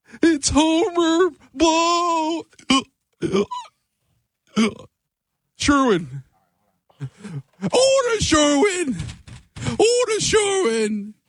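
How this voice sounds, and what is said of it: Imitates another person's voice, drunk hiccup. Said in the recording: “my impression ... He got to get his laugh down a little bit better ... the hiccup was like more him being drunk ... a drunk Homer Blow”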